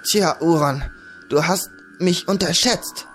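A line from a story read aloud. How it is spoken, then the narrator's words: Stammering, fighting off fainting. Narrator (German): stotterte während er gegen die anwachsende Ohnmacht widerstand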